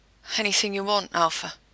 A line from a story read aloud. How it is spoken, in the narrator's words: Jensen was panting, as he whispered